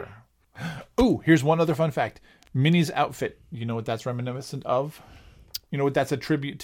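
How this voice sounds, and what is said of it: Usual voice. Nothing is said of it.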